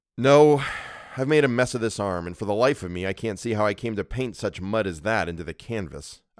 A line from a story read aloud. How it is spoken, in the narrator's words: replied